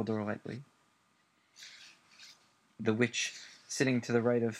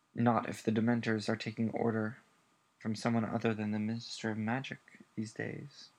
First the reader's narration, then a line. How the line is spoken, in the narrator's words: said Dumbledore calmly